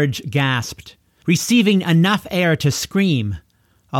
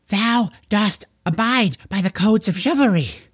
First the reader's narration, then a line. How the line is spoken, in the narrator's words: George gasped the words out to Corwynn